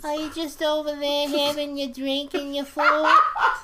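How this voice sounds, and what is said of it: Old-fashioned 1940s woman's character voice. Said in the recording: “It was a woman's voice from the 40s or 50s. ... Such a weird voice. ... That's a great voice. ... It's a new character I invented.”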